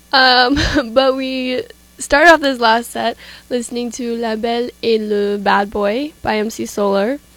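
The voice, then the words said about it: Voice sounds weird, recovering from illness. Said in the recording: “I'm a little bit coming off of an illness, so my voice sounds really weird”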